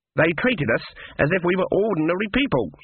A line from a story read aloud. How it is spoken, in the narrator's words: said Granny in a shocked voice